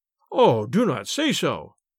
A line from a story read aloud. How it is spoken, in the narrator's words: said the abbot